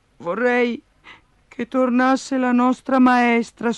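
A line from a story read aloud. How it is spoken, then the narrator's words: Sigh. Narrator (Italian): sospirò Giannina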